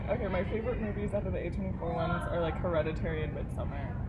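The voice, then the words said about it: Deep vocal fry voice. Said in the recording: “now I have to change my voice. I'm gonna vocal fry ... and like, get it really deep.”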